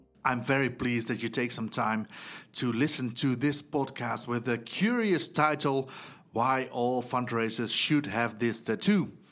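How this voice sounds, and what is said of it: Dutch accent. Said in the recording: “as you might hear from my accent, I'm from the Netherlands.”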